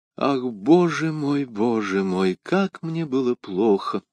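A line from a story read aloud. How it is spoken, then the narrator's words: Melodious, enchanting whisper. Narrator (Russian): прошептала миледи тем благозвучным голосом, который, подобно голосам волшебниц древности, очаровывал всех, кого она хотела погубить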